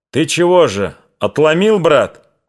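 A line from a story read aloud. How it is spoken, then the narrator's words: Shout. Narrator (Russian): крикнул Астахов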